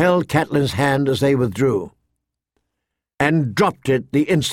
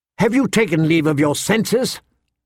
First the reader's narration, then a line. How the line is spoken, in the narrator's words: Lysa snapped at her